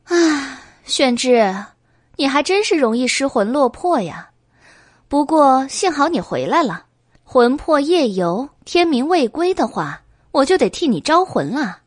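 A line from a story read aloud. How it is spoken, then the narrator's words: Sighing. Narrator (Chinese): 白姬叹了一口气，说道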